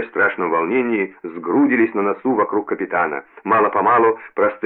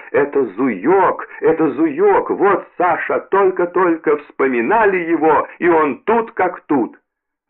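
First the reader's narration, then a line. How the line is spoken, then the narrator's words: Joyful shout. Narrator (Russian): Уланова радостно закричала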